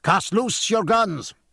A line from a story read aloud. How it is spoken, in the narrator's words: cried James Dillon